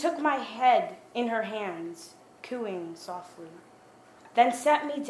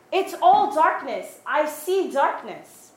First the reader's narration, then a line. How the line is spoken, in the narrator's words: screaming